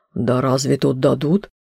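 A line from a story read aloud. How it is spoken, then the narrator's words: Grumbling. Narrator (Russian): проворчала Мордальоновна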